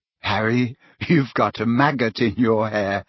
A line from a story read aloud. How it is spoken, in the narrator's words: said Ginny cheerfully